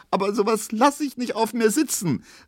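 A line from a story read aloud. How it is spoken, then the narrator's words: Calling out, sobbing. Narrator (German): rief jetzt Pauline schluchzend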